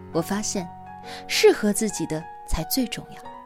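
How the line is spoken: Smiling. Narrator (Chinese): 她笑了笑说

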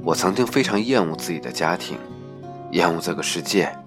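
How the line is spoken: Sighing. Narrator (Chinese): 他叹口气说

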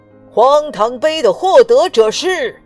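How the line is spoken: Loud calling out. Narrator (Chinese): 国王喊道

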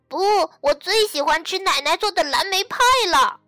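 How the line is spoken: Shouting. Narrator (Chinese): 玛尼大叫道

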